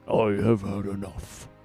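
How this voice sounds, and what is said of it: Deliberately terrible impression of Ornn. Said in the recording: “my attempt at a terrible impression”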